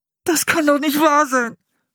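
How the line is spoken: Groaning. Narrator (German): stöhnte er

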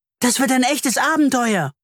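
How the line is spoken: Call. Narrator (German): ruft Leo

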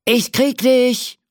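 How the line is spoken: Shouting. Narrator (German): ruft der Cowboy mit dem Lasso und rennt hinter der Indianerin her

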